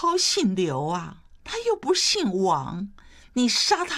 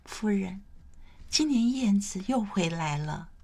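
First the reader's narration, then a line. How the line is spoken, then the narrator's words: Soft-spoken maid. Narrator (Chinese): 侍女轻声说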